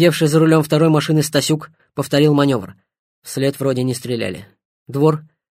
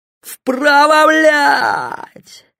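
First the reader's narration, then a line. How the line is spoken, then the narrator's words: Desperate bellow. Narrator (Russian): заорал Севастьянов, увидев единственный путь к спасению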